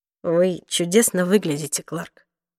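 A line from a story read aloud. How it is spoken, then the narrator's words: Quiet. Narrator (Russian): тихо произнес он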